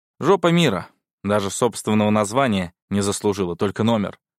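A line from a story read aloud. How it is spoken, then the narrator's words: Snort. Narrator (Russian): хмыкнул я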